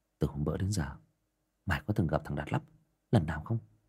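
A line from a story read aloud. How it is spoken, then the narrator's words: Whispering. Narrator (Vietnamese): Thằng Nam thủ thỉ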